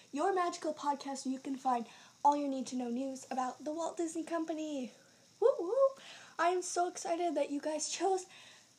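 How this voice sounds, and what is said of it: Out of breath, panting. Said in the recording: “Sorry, I am out of breath.”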